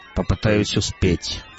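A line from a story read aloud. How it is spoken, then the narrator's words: Grumbling. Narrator (Russian): пробурчал Шидло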